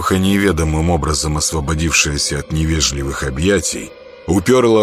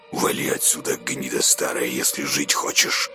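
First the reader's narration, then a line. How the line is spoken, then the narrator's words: Vicious hiss in ear. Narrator (Russian): злобно зашипел ей в ухо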